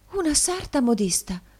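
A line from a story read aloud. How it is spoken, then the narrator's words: Exclaiming. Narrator (Italian): esclamò la signora Nickleby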